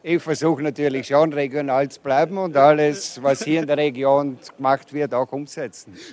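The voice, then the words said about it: Austrian German accent. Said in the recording (German): “Ihr habt den österreichischen Akzent, gell? ... Die verkaufen hier mit österreichischem Akzent”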